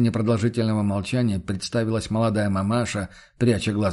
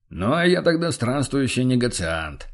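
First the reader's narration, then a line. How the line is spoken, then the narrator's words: Smirking merchant. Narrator (Russian): хмыкнул торговец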